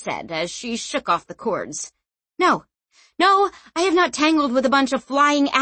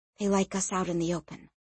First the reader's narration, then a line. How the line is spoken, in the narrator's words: she said softly